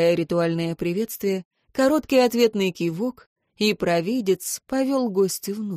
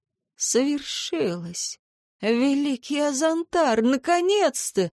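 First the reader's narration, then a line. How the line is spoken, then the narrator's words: Hoarse, joyful man. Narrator (Russian): просипел он через несколько мгновений, даже не пытаясь скрыть широкой радостной улыбки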